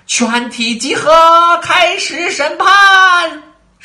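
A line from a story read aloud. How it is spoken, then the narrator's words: Distant shout. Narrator (Chinese): 远处一个声音大喊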